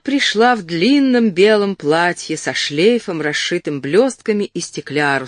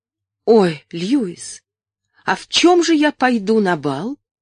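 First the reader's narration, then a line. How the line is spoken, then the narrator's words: Frightened exclamation. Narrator (Russian): Стефания испуганно воскликнула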